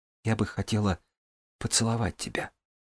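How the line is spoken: Whisper. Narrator (Russian): прошептала Джанель

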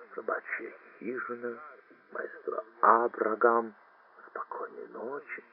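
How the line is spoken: Stunned mumbling. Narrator (Russian): Совершенно ошеломленный гофмаршал бормоча

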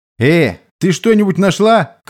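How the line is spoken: Shouting downward. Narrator (Russian): крикнул вниз

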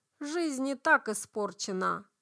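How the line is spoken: Young man's grumble. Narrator (Russian): буркнул парень

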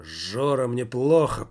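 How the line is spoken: Hoarse croak. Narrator (Russian): прохрипел Жак

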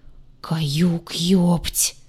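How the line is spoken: Horrified, strained. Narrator (Russian): Исполненным неподдельного ужаса голосом выдавил Двар

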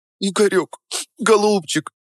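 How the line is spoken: Sobbing. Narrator (Russian): всхлипывала она

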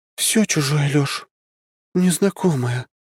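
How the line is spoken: Sighing. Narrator (Russian): Василиса вздохнула

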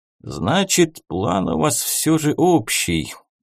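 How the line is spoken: Old man's relieved sigh. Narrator (Russian): облегченно вздохнул дед

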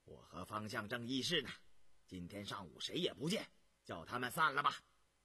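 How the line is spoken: Stern, harsh. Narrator (Chinese): 张廷玉 厉声说道

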